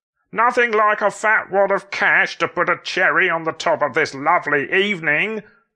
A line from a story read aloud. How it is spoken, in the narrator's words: Scott hollered for his brother to hear